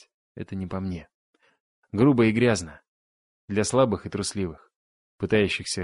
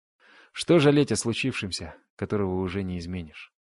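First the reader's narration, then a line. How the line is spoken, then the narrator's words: Dull, muffled voice. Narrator (Russian): глухо проговорил он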